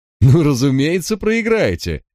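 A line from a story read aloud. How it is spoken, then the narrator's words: Loud laughter. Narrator (Russian): Дирик расхохотался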